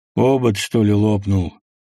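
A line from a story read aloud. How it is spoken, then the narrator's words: Mocking, sing-song bass. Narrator (Russian): насмешливо спросил он певучим баском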